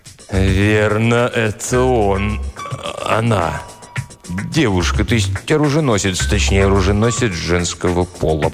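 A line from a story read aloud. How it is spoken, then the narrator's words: Mumbled. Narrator (Russian): промямлил Тристовер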